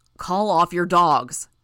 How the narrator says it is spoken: Brian shouted

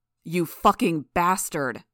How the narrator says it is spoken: Gru shouted, his voice distorted by his power

